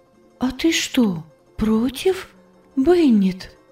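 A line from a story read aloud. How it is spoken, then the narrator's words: Weak, uncertain voice. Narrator (Russian): Голос Анны звучал слабо и неуверенно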